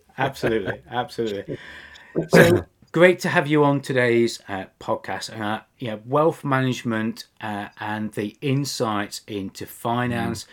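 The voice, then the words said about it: British accent. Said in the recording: “it's a British accent”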